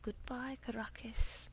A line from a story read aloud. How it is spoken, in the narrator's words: murmur